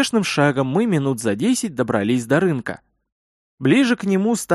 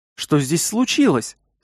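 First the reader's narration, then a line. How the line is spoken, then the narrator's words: Slightly frightened question. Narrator (Russian): слегка испуганно спросила Карина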